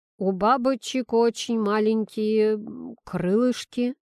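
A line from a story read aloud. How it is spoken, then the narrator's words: Hesitant. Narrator (Russian): неуверенно добавил Тимоха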